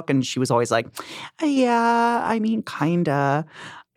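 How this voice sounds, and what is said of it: Impression of Naya Rivera. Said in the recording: “Really good impression. ... It's like she's right here. ... Naya Rivera”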